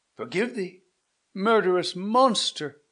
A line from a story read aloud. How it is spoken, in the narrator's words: cried Manfred